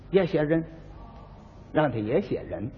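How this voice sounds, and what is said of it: Speaking in a low voice. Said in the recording (Chinese): “小声说”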